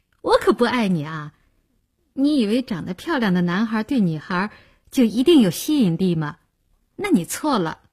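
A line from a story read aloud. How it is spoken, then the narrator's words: Laughing. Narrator (Chinese): 林星笑道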